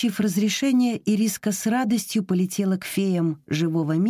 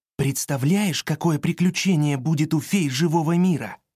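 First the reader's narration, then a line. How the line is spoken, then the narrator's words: Plain. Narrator (Russian): сказал он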